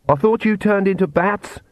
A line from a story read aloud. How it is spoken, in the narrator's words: she shouted to Vlad